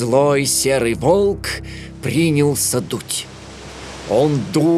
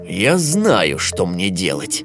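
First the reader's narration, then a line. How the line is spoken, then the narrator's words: Wolf, malicious smirk. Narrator (Russian): злобно ухмыльнулся волк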